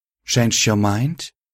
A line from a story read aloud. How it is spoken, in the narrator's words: She said smoothly